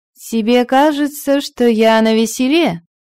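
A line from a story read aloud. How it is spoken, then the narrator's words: Ringing laugh. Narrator (Russian): Регенлейв звонко рассмеялась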